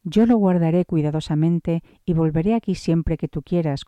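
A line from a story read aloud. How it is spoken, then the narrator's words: Plain. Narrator (Spanish): contestó la esposa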